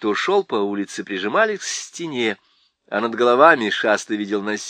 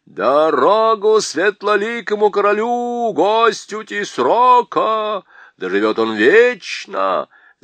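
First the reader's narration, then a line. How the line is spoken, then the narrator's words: Loud booming shout. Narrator (Russian): закричал зычный голос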